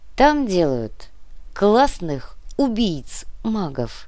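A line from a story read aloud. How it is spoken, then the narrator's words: Slow. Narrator (Russian): медленно ответил Сантьяго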